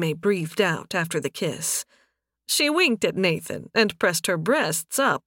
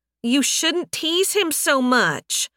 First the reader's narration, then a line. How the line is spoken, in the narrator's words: Yafela whined